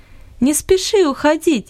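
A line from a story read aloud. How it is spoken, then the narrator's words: Laughing. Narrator (Russian): засмеялась Луис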